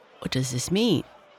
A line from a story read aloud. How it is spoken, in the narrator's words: asked Mr